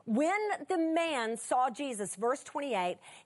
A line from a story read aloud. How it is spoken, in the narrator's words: he cried out and fell down before him and said with a loud voice